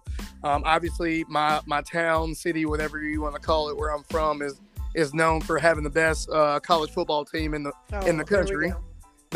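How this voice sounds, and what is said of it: Southern US accent. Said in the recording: “y'all can probably tell from the accent. I'm not from, I'm definitely from the South.”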